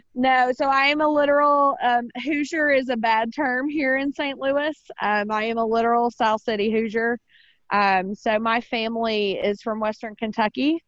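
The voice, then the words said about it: Strong Southern US accent. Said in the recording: “your accent, kind of strong. Where are you from? Alabama, Georgia, Florida?”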